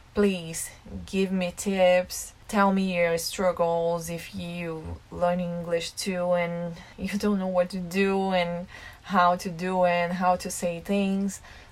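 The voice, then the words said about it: Non-native English accent. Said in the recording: “your accent's so cute ... I have an accent, it's normal. English is my second language”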